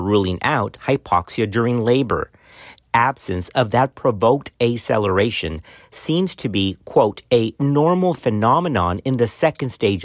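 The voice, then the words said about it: Texan-Hispanic accented English. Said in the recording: “my Texan accent in the middle of my Hispanic background and I butcher all types of words”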